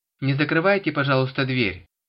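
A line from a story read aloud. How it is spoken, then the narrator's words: Shouted to neighbor. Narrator (Russian): крикнула Валентина Витальевна подходившему к подъезду соседу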